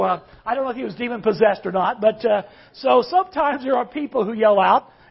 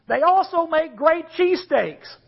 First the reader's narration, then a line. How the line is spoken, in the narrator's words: someone yelled out